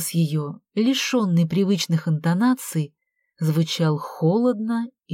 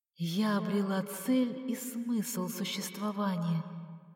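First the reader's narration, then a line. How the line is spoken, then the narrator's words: Muffled reply. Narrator (Russian): глухо ответила Алла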